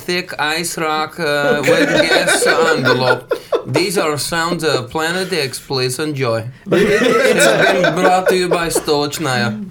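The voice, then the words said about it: Thick put-on Russian accent. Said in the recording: “It's a thick accent. ... Russian radio”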